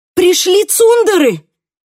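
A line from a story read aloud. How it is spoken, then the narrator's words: Shout. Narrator (Russian): крикнула я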